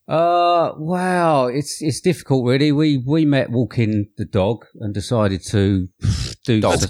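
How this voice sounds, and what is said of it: British accent. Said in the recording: “That is our best British accent.”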